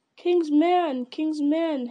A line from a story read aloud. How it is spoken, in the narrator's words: his heart cried within him